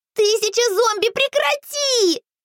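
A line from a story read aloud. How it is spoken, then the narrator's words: Yelling. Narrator (Russian): заорала я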